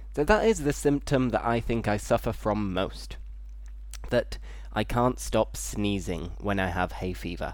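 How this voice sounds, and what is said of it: Slightly congested, blocked-nose voice. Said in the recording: “my voice sounds a little bit different because it's similar to having a cold. And my nose is a little bit blocked.”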